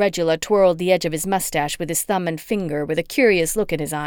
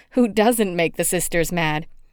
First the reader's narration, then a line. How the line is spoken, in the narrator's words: giggled